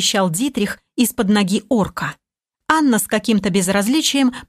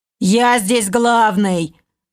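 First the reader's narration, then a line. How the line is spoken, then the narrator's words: Elf hissing through teeth. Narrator (Russian): Сквозь зубы просипел эльф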